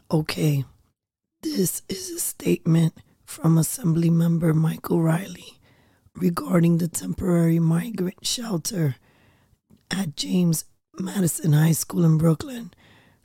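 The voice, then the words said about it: Hoarse, strained voice. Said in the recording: “forgive my voice. I have been healing from laryngitis.”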